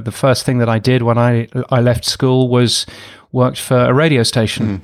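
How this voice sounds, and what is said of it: British accent. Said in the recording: “I'm a Brit, as you can tell from this ridiculous accent.”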